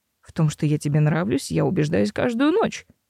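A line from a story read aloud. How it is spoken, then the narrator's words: Relaxed snort. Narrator (Russian): хмыкнул Себастьян, немного расслабившись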